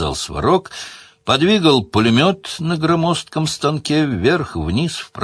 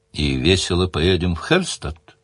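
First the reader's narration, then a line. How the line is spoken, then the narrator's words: Quiet question. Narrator (Russian): тихо спросила Делия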